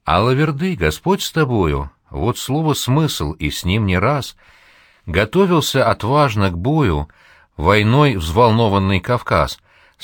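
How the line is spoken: Sweet tenor with choir. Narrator (Russian): Сладко заливается тенор солиста-казака, и мягко в тон ему гудят басы, ракочут баритоны

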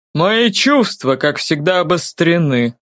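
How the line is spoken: Amused snort. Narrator (Russian): хмыкнул Даг Девайт

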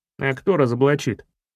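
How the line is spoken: Skeptical grunt. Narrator (Russian): Филин хмыкнул

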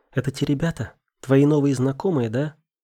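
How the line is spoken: Quiet but forceful call. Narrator (Russian): крикнула Вика и сделала это на удивление негромко, но внушительно

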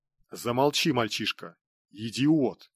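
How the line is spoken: Angry empress. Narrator (Russian): зло сощурилась императрица

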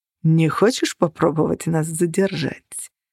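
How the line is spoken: Silky voice. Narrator (Russian): шелковым голосом спросил он

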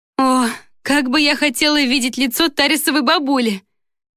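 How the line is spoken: Moaning through laughter. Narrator (Russian): простонала сквозь смех

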